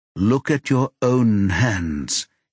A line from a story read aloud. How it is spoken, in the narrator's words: he says, trying to keep his voice steady